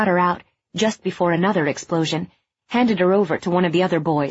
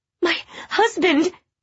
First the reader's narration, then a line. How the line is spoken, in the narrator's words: she cried